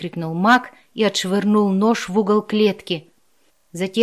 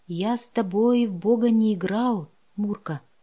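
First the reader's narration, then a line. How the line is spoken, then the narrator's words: Whisper. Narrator (Russian): прошептал он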